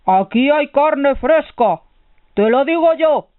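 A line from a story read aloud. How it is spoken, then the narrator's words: Ogre roaring. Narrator (Spanish): rugió el ogro a su mujer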